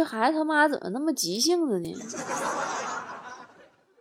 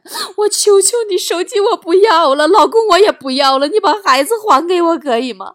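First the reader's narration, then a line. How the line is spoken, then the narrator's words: Frantic crying mother. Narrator (Chinese): 电话那头疯了，孩子他妈哭喊着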